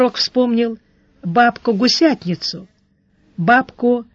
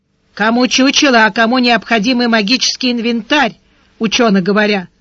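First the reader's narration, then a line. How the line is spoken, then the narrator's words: Old woman grumbling. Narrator (Russian): проворчала старуха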